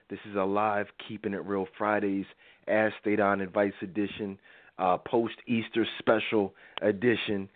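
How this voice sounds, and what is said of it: Slightly raspy voice. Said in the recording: “I'm a little raspy tonight. I'm getting over a little cold”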